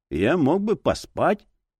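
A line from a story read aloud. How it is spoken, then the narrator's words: Muffled voice. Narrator (Russian): голос детектива звучал глухо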